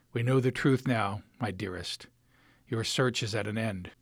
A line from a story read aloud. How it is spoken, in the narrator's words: whispers